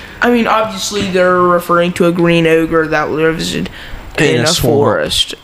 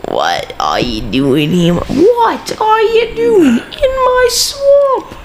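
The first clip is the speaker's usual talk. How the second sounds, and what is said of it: Weak impression of cartoon ogre. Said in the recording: “I can't do a good impression of Shrek.”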